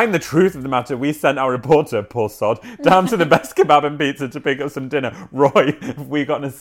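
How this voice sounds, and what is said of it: Usual voice. Nothing is said of it.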